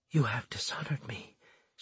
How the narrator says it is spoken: she whispered

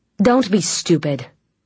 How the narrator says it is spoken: Lucien snapped

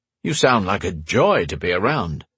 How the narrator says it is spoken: noted Gary dryly

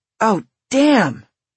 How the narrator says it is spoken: exclaimed

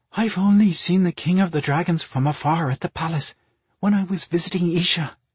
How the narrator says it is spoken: she breathed in awe

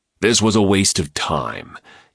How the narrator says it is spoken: grumbled

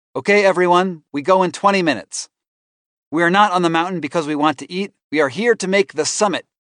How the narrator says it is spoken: he shouts

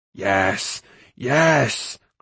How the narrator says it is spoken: cried Gurgi

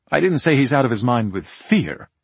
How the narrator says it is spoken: Wells snapped

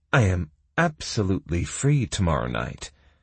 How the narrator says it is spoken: purred Kira

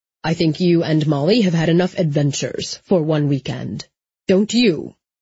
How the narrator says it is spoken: His voice hardened with every word

